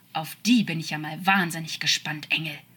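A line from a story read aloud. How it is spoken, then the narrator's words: Angry growl. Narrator (German): knurrte wütend, und seine angestauten Emotionen konnten sich nicht mal ansatzweise beruhigen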